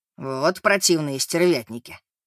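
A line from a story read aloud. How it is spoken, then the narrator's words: Grumbling. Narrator (Russian): проворчал Эммет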